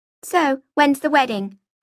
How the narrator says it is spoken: I asked in a cheerful voice

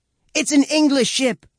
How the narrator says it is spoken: I shout

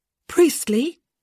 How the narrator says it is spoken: Francesca called out

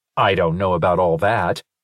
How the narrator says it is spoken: Linus said stiffly

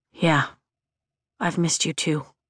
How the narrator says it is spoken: he says quietly

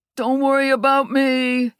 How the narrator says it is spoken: he called out

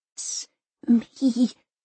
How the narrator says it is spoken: Elsa stammers

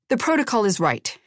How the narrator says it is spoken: he said sharply

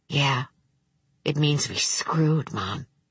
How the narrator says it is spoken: Vic said softly

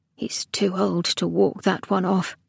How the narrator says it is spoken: she muttered to herself

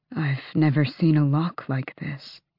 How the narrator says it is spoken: Gavriel murmured

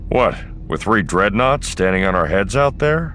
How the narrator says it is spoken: Han snorted

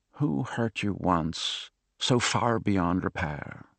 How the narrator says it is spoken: She muttered

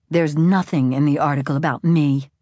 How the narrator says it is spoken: Isabel spat

